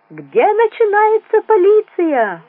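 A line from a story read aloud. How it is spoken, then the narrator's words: Yelling. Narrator (Russian): вопил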